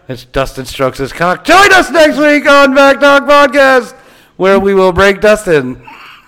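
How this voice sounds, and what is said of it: Deep radio announcer voice. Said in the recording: “do the deep radio voice”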